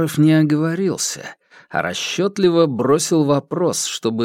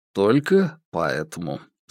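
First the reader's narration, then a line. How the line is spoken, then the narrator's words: Calm confirmation. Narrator (Russian): спокойно подтвердил Иван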